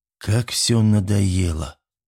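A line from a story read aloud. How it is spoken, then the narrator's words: Heavy sigh. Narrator (Russian): Дима тяжело вздохнул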